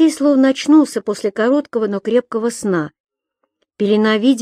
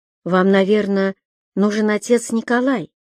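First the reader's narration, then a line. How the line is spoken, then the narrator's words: Quiet, good-natured. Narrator (Russian): добродушно улыбнулась и тихо сказала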